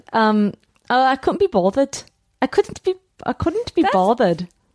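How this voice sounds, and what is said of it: Put-on Australian accent. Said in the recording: “You try an Australian accent.”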